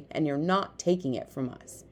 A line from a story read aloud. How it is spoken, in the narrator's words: said Pong firmly